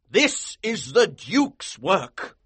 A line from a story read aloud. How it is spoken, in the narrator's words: he exclaimed